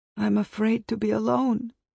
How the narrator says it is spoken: mother moaned

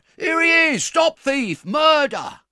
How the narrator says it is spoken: Chickweed roars out

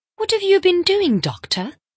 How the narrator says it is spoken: cried Mrs

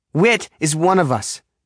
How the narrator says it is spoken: she says sharply

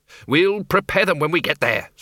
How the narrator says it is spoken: said the Arch-Chancellor through gritted teeth

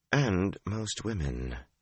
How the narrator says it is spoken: Shiriam replied coolly

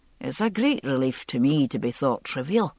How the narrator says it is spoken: Jamie said very dryly

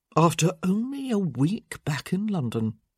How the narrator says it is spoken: he murmured thoughtfully

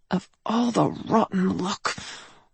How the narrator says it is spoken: I murmured

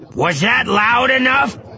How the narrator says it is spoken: He said, yelling into the pail and producing a noisy echo

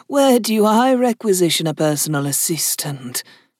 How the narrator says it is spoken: she asked in an amused tone

